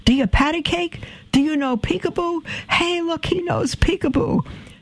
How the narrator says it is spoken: began shouting from across the room

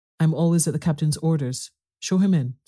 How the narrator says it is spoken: said the squire

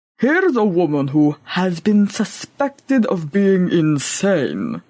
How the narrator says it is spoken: he grumbled aloud

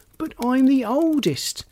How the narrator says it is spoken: exclaimed Charlie

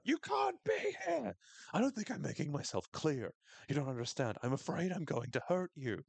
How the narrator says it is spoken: she just screams at her

